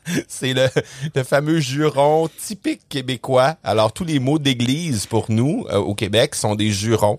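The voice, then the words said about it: Quebec French accent. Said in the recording (French): “J'imagine que les gens ont compris ... accent ... que je viens du Québec”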